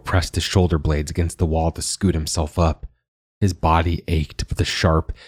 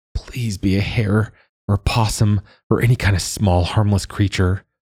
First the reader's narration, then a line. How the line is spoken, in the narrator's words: Joa pleaded